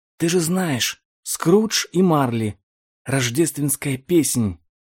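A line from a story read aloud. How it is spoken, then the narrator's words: Whisper. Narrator (Russian): прошептал Том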